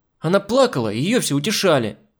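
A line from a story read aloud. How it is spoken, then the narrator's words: Girl yelling. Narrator (Russian): заорала девочка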